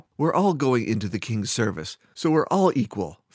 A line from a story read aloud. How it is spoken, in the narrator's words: Fiera snapped back at Theta